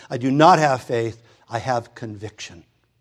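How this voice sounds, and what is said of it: Imitated Russian accent. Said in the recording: “she's from Russia. She has this accent.”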